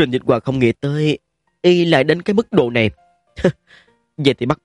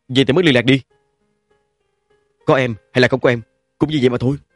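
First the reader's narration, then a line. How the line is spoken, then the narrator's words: Irritable snap. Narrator (Vietnamese): Trình Dịch Hòa gắt bỏ nói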